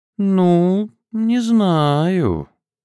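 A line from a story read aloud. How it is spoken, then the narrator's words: Capricious drawl. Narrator (Russian): капризно протянула Ирка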